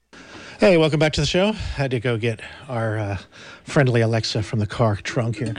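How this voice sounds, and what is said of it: Out of breath, panting speech. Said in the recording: “Dr. Future is out of breath. He's been running.”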